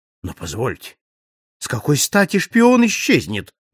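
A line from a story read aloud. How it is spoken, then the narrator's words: Exclaiming. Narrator (Russian): воскликнул Трелоней Гоп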